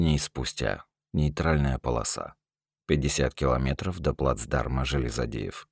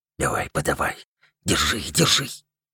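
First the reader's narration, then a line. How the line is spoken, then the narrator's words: Almost a whisper. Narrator (Russian): Почти шепотом говорил Яхрип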